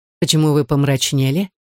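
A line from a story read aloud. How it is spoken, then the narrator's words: Gentle reproach. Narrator (Russian): мягко упрекнул ее Люсьен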